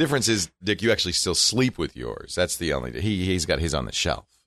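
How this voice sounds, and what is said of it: Usual voice. Nothing is said of it.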